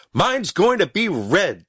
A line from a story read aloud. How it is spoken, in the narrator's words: shouted Stubby, running back with his hands full